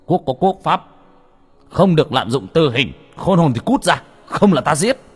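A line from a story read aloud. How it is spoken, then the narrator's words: Sharp shout. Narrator (Vietnamese): Tay bộ đầu quát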